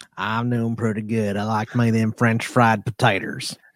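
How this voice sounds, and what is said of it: Southern drawl, imitates another person's voice. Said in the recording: “he's not acting because he's from the South ... I legit could have ended up sounding like that ... my redneck accent”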